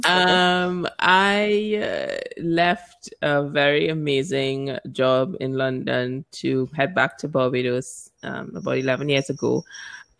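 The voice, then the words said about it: Trinidadian accent. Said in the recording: “for those who may not know from my accent, I'm originally from Trinidad”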